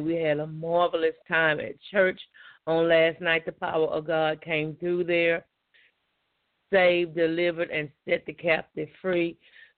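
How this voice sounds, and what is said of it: Scratchy, hoarse voice. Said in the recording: “Excuse my voice. It's a little scratchy and I'm a little hoarse ... my voice is a little scratchy and hoarse, because I praised God from the time I got in there until I got home”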